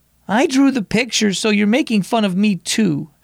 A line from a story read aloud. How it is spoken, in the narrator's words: Eloise cried